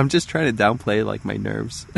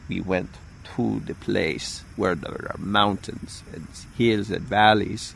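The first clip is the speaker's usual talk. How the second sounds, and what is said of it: Deliberately bad put-on accent. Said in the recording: “That is the worst accent ever.”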